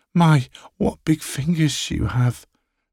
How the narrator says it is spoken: she gasps

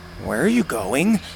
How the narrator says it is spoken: Bo asked nervously

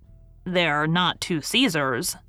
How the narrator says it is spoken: said the stud groom dryly

